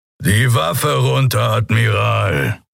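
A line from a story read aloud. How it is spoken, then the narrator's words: Low grumble. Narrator (German): brummte der Skria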